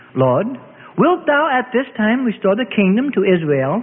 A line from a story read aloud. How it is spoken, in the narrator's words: Peter asked